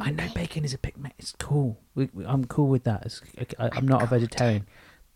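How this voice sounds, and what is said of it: Whispering. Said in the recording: “Why are we whispering? ... Okay, let's not whisper.”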